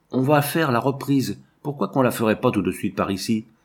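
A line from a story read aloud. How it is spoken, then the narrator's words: Suddenly exalted exclamation. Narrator (French): saisi d'une exaltation soudaine, il s'exclamait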